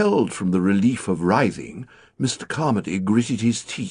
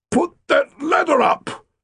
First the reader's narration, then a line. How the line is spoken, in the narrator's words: he said in a strained voice